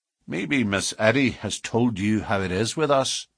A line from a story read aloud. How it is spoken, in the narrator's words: said Baldwin